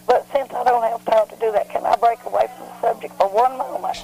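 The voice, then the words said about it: Hoarse, strained voice. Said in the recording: “I'm fighting laryngitis”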